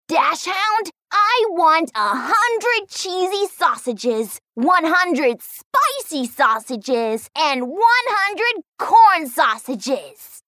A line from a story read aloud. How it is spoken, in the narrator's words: He shouted